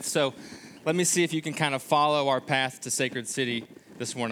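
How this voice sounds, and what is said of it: Slight Kentucky accent. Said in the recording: “a little bit of something from an accent ... we are originally from Kentucky”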